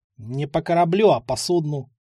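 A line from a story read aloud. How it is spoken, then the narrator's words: Grumble. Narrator (Russian): проворчал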